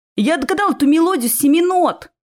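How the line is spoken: Very loud vampire shout. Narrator (Russian): закричал вампир так громко, что испугал и меня, и Ромеуса

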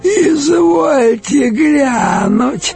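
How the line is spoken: Creaky voice. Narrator (Russian): проскрипела одна, особо выделяющаяся уродливостью

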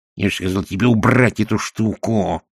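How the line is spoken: Hissing. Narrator (Russian): прошипел Шнобби

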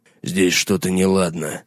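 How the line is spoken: Muttering. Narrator (Russian): пробормотал Гаррет

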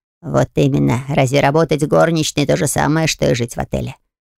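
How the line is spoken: Snorting. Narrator (Russian): хмыкнул проводник

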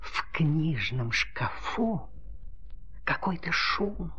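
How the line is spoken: Whisper. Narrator (Russian): прошептала ручка

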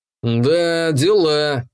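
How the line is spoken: Stunned drawl. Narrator (Russian): несколько ошарашенно протянул я

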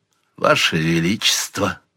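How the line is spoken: Weary, almost indifferent. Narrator (Russian): сказал Торч устало, почти равнодушно

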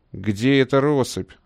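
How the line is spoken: Irritated question. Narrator (Russian): раздраженно спросил Али

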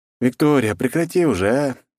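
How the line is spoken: Lazy. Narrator (Russian): лениво проговорил я

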